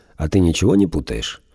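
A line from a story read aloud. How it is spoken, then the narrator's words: Calm question. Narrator (Russian): Он спокойно спросил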